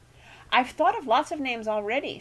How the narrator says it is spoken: continued happily

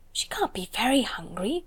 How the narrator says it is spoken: whispered Lavinia

